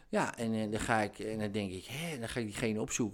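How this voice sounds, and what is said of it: Regional Dutch accent. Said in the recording (Dutch): “met dat accent, dan ga je toch geen podcast inspreken? ... ik word zo geïrriteerd van jouw stem”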